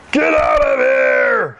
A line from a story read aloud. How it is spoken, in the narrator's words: shouted the fat man